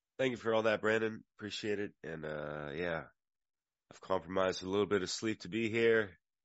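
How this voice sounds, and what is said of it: Slightly raspy voice. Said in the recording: “my voice is a little raspy. Maybe my immune system is a little compromised”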